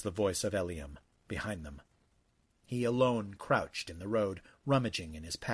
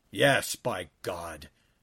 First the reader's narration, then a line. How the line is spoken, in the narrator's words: Joab exclaimed, his blood up